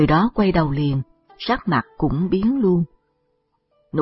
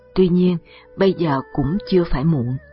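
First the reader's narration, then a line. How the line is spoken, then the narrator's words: Sighing. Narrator (Vietnamese): Tây Môn Xuân thở dài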